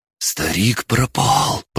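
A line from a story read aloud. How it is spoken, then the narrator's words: Hiss. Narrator (Russian): прошипел Мэри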